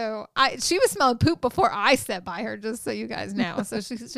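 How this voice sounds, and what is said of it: Usual voice. Nothing is said of it.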